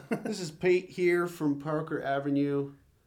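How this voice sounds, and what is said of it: Failed attempt at American accent. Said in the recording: “American accent's not working for me.”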